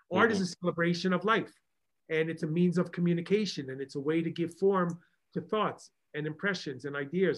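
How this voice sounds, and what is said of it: Long Island accent. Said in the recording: “I'm trying to say that without my Long Island accent, making it incomprehensible.”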